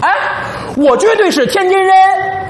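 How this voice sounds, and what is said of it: Imperfect Tianjin dialect accent. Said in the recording (Chinese): “你说的这是天津话吗？您这天津话都快到廊坊了”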